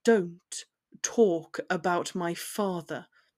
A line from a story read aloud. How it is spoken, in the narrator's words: he repeated, his voice low